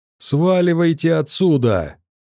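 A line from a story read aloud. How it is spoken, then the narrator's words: Shrill yell. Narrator (Russian): Неожиданно тонким голосом завопил сектант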